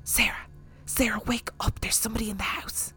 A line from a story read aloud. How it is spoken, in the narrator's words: I heard my mum whispering